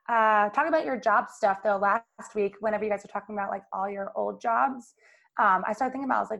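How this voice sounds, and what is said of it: Raspy voice. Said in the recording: “So if I'm raspy, that's why.”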